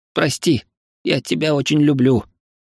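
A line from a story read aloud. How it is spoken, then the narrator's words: Sobbing. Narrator (Russian): всхлипнув, сказал Демис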